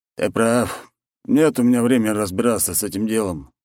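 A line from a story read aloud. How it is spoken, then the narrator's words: Sighing. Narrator (Russian): вздохнул архимаг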